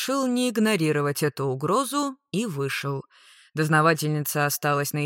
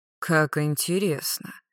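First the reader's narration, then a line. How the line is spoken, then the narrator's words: Muttering. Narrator (Russian): пробормотал я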